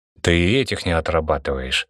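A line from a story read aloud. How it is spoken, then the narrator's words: Irritated, cutting in. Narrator (Russian): раздраженно оборвал его Гургинадзе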